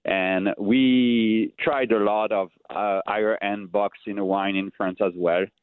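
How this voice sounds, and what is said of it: French accent. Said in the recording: “with my accent too, everyone understood that I come from like France”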